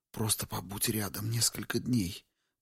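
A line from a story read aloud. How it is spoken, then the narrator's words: Lady whispering. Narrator (Russian): прошептала госпожа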